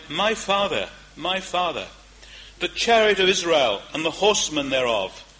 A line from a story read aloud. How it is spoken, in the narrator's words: Elisha saw it, and he cried